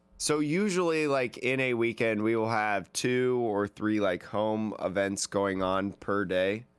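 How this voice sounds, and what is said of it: Slightly strained voice. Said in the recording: “If you can't tell, my voice is like a little strained.”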